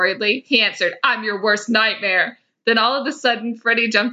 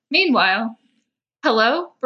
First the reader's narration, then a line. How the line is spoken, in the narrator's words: Brenna said nervously